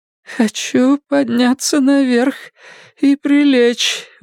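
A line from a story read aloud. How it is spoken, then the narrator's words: Breathy exhale. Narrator (Russian): выдохнула Карла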